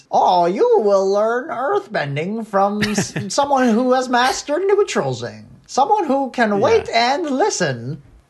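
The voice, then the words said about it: Cracky, high-pitched old man voice. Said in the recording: “That's a really good impression... those like vocal cracky, like high pitched old person thing that King Bumi has”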